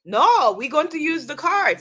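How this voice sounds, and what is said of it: Poor put-on French accent. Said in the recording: “That's a horrible French accent.”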